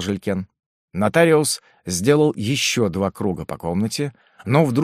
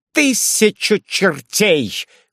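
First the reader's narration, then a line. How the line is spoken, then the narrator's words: Shout in strange voice. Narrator (Russian): крикнул он не своим голосом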